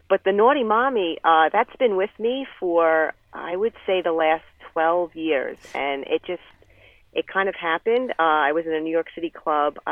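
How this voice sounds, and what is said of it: Noticeable regional accent. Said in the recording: “I love the accent.”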